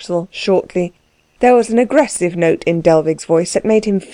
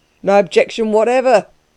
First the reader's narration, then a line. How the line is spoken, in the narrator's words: agreed another with a laugh